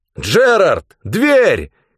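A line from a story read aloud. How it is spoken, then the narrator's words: Shout. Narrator (Russian): крикнул я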